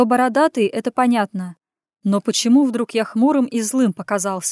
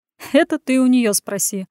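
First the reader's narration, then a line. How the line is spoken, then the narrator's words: Loud laugh. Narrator (Russian): хохотнул в голос друг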